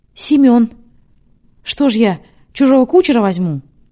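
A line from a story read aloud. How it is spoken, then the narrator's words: Cheerful announcement. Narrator (Russian): Граф весело объявил Матвею Бенционовичу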